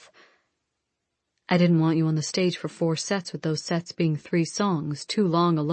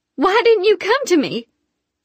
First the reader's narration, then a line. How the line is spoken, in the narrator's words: I screeched